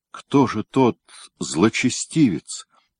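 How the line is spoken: Barely audible question. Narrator (Russian): еле слышно спросил

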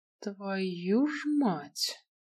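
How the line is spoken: Exhaled curse. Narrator (Russian): выдохнул Киган

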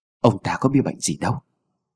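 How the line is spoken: Timid very quiet speech. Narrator (Vietnamese): Khi khám xong thì lão ta cũng chỉ dám nói rất khẽ với Mụ Tâm

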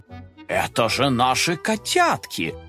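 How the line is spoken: Surprised exclamation. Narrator (Russian): удивленно воскликнул он

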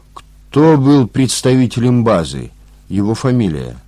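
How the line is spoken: Stern question. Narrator (Russian): также строго спросил Мошкин

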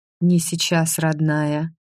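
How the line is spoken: Gentle request. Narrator (Russian): ласково попросили меня

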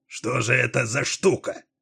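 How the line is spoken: Sharp question. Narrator (Russian): резко спросил Дилуо

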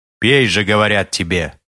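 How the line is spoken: Monstrous bark. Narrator (Russian): гаркнуло чудовище

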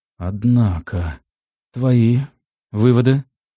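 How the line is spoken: Sad question. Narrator (Russian): печально спросил я

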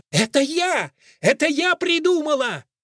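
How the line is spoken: Excited full-throated shout. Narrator (Russian): сгоряча закричала во все горло

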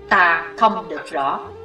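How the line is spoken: Cold, hiding fear. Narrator (Vietnamese): Dù nỗi sợ đã hiện trên gương mặt hiểm ác, nhưng tên cao thủ vẫn lạnh lùng đáp

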